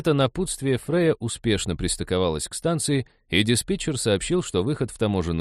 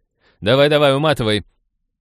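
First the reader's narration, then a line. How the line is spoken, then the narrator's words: Mocking shout. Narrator (Russian): Глумливо крикнула Молли вслед киберу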